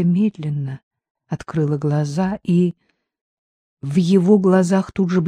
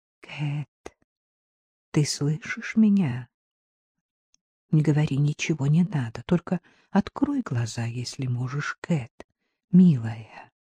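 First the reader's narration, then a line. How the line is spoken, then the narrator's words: Quiet. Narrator (Russian): тихо проговорил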